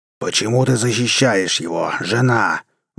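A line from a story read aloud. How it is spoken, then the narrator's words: Roared. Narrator (Russian): взревел Дев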